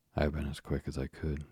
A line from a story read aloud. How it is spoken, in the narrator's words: she panted